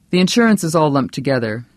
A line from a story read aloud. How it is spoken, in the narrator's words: Carrick said flatly